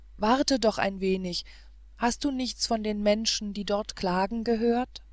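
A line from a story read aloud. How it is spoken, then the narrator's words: Calling out. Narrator (German): rief er nun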